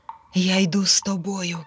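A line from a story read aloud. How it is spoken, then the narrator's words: Plain. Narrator (Ukrainian): сказав третій кіт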